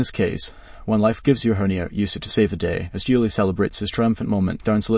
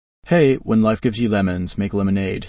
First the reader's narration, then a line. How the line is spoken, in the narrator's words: he says, winking